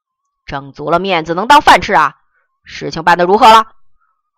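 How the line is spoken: Fierce roar. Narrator (Chinese): 吼声的火力十足

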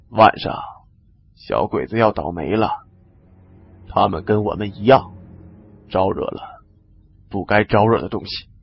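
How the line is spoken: Low voice. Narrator (Chinese): 李存壮同样低声说

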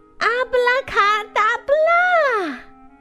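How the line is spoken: Shouting with all strength. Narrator (Chinese): 小猫头鹰 竭尽全力，大声喊道

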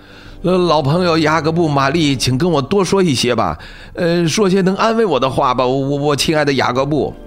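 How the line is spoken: Pleading. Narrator (Chinese): 他几乎哀求着说

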